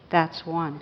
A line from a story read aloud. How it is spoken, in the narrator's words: quietly said